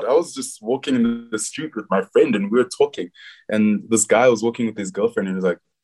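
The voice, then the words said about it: South African accent. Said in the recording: “I know that accent. Are you from South Africa?”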